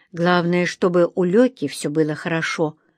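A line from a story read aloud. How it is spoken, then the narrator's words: Through clenched teeth. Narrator (Russian): сквозь зубы вслух проговорила Инга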